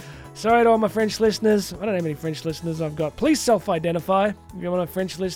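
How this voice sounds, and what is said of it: Usual voice. Nothing is said of it.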